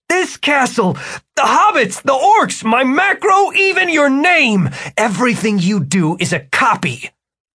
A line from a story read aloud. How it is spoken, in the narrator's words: Martin shouted